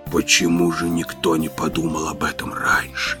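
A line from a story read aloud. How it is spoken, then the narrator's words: Blissful whisper. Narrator (Russian): прошептал Эль-Эм с блаженной улыбкой на лице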